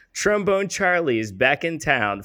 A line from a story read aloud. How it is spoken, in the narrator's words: Frankie yelled